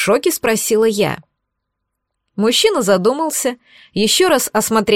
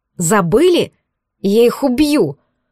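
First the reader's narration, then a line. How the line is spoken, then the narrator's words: Angry threat. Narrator (Russian): Зло посулила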